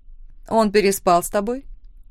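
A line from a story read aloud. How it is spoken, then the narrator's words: Sudden rude question. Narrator (Russian): внезапно грубо спросила Лора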